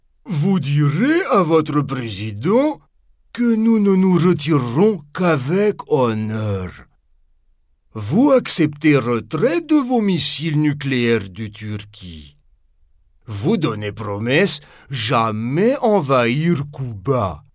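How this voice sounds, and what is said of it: Strong put-on Russian accent. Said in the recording (French): “j'ai pris un accent russe du tonnerre”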